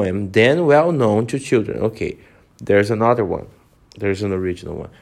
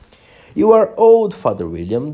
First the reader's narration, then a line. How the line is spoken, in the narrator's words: the young man cried